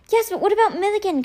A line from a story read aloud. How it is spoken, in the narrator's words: Kate cried